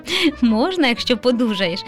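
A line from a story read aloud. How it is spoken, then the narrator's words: Father laughing. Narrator (Ukrainian): засміявся тато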